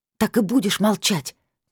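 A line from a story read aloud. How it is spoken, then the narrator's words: Irritated growl. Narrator (Russian): Не скрывая раздражения, рыкнула я на Лилит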